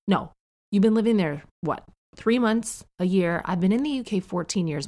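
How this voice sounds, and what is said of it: Neutral North American accent. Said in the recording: “We just spoke a neutral North American, kind of a accent like the one people use on TV. And that is my accent to this day ... My accent has not changed.”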